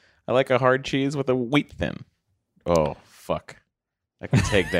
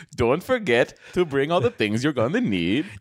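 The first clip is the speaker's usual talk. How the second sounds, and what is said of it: Put-on Swedish accent. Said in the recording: “In your best Swedish accents”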